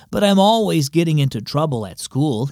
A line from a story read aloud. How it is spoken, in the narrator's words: added with a sigh